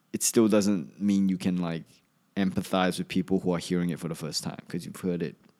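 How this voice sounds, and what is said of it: Slightly Australian-sounding accent. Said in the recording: “they hear Australian when I talk. I guess if you're not from Australia, I sound I might sound Australian ... I spent ten years there. You figure I would sound a little bit Australian ... She said Australian over anywhere from Asia”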